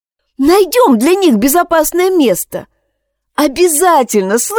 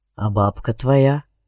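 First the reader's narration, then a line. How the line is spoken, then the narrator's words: Quiet question. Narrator (Russian): также тихо спросил Алекс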